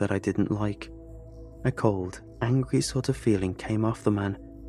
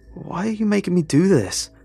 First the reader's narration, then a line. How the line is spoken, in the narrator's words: I yelled at the man in the suit